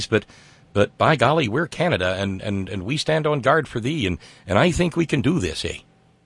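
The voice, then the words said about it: Put-on Canadian accent. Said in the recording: “isn't that a cute little accent”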